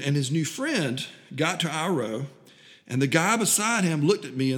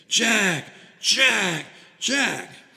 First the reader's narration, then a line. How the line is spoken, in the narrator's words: the frenzied fans were all around us were shouting his name